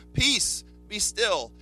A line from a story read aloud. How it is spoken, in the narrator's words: he shouts at the storm